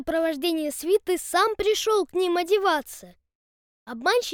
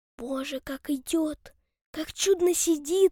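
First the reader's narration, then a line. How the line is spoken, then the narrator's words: Whispering. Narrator (Russian): шептали в свите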